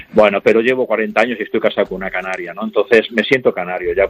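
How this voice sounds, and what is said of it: Salamanca Spanish accent. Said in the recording (Spanish): “el acento... Es salmantino”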